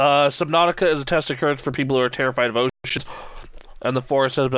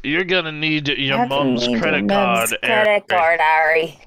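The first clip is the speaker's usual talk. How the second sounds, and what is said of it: Hagrid character voice. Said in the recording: “In my best Hagrid voice”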